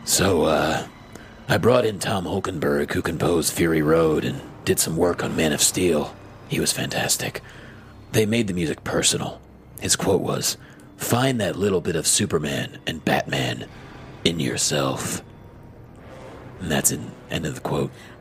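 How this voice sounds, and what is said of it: Batman character voice. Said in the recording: “movie trailer voice ... So that wasn't your movie trailer voice. That was your Batman voice.”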